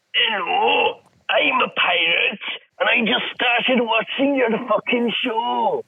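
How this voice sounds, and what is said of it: Pirate voice with Scottish accent. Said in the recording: “that pirate sound Scottish and like Ragman”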